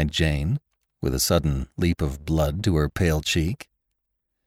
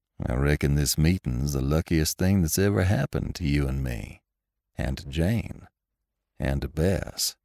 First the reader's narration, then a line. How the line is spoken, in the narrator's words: said Lassiter coolly